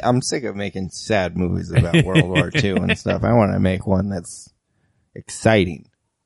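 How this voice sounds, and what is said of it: Imitates another person's voice. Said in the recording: “my Steven Spielberg impression ... It's really good. Yeah, it's great.”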